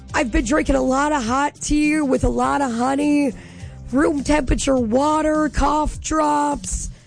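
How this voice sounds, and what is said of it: Hoarse, nearly lost voice. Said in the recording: “My voice is gone. Oh, it's gone. Oh, I've been without a voice since most of the day Saturday”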